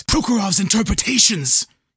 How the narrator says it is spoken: Imbert wheezed

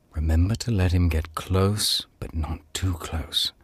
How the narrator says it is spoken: Nicholas twitched his curtain aside to whisper

